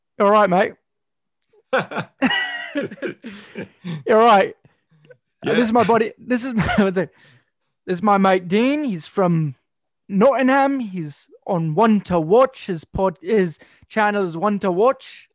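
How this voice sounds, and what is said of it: Put-on British-Australian mixed accent. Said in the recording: “You introduce me in an English accent ... Like a British accent? You want me to do a British accent? ... Is it going to sound British or is it going to sound Australian? ... It's going to be a mixture of both.”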